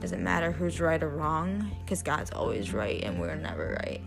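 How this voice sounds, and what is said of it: Tired, low-energy voice. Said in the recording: “I'm exhausted, as you guys can probably hear. My voice is like, not like hooray, because I'm pretty tired.”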